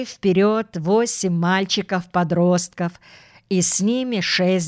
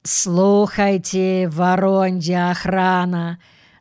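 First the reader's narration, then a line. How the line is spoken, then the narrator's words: Slightly mocking. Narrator (Russian): сказал Митька чуть насмешливо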